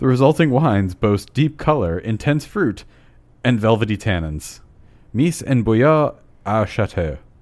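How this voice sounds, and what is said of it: British accent pronouncing French. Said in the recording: “you kind of have a British accent when I? you're pronouncing French.”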